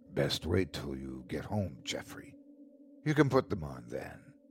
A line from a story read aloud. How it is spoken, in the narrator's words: darkly serious, with his face just inches from mine, he whispered